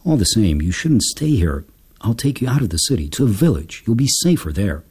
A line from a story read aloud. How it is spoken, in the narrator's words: he sighed and muttered